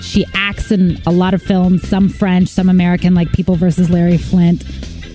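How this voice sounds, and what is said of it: Speaks with a noticeable accent. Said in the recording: “It sounds so unsexy in my accent”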